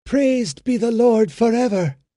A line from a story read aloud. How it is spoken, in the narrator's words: exclaimed the mother, with the fervor of restored faith and hope